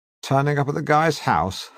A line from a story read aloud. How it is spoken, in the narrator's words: chuckle